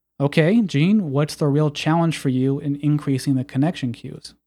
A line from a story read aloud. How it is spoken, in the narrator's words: Brian asked calmly